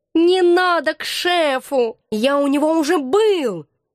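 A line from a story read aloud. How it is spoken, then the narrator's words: Hoarse drawl, cat. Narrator (Russian): осипшим голосом протянул кот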